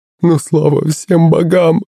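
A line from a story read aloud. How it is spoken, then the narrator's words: Mother sobbing. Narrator (Russian): зарыдала маман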